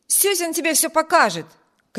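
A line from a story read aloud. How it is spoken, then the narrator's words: Shout. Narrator (Russian): крикнул Виберт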